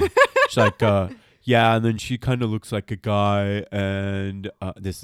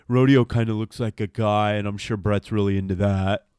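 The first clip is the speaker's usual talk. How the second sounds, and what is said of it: Imitates another person's voice. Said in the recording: “my Luca Magnotta impression”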